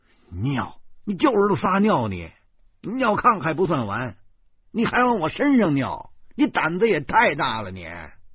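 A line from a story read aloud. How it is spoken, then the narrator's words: Angry. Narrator (Chinese): 我恼怒的说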